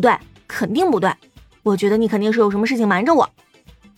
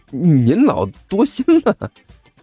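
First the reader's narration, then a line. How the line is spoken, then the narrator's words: Forced laugh. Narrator (Chinese): 甘秋干笑一声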